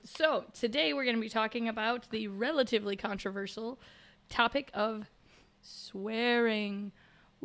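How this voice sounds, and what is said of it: Rough, unwell-sounding voice. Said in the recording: “my voice sounds a little bit, well, terrible ... still recovering from my fun cold”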